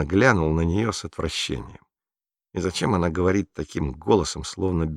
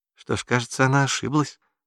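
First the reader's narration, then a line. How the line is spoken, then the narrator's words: Sweet little voice. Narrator (Russian): сладким голоском вставила Гретель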